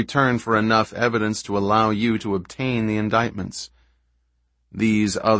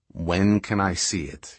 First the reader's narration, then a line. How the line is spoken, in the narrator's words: he asked, quietly but so eagerly